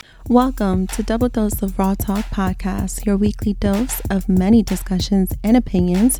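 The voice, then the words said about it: Raspy, strained voice. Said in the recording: “y'all about to get a raspy voice again... I was struggling with my voice. I had lost it... this voice is just not working with me”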